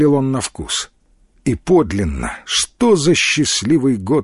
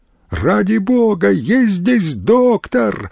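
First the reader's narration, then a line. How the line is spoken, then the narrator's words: Trembling, breaking female cry. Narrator (Russian): выкрикнул дрожащий, срывающийся женский голос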